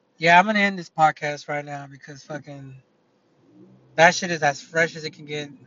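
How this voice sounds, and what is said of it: Slightly raspy voice. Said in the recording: “my fucking ears are still ringing. My throat is a little raspy.”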